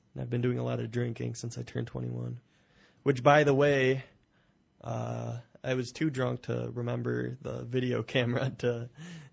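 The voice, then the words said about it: Strained, fading voice. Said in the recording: “I'm losing my voice. ... I'm getting over being sick.”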